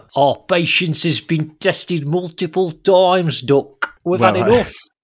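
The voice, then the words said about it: Put-on Greek accent. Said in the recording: “Is that a Greek accent, is it?”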